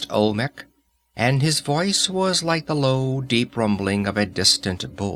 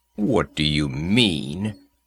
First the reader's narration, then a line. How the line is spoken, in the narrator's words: growled Conan